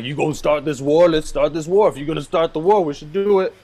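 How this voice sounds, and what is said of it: Imitates another person's voice. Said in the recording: “this is like your fourth time doing that impression. ... I'm trying to work on my Forrest Whitaker.”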